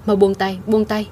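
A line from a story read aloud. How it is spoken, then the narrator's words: Frightened, then angry. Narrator (Vietnamese): An Tiểu Mễ kêu sợ hãi, giận dữ nói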